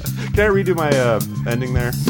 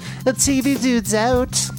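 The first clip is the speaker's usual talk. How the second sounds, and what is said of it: Attempted British accent. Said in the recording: “That was supposed to be a British accent.”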